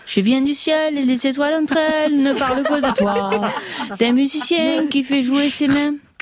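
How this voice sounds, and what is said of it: Put-on southwestern French accent. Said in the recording (French): “C'est quoi cet accent du sud-ouest?”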